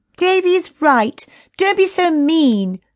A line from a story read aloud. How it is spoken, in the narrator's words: cried Chrissy